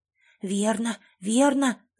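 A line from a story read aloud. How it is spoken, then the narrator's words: Crowd whispering. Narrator (Russian): зашептали вокруг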